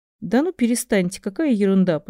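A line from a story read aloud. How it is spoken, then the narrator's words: Forced laugh. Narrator (Russian): постаралась рассмеяться Кэт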